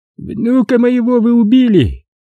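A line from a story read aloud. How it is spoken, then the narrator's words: Old man's heavy groan. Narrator (Russian): тяжело простонал старик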